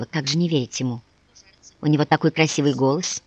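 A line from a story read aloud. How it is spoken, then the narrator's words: Whisper. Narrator (Russian): Лукерия Семеновна прошептала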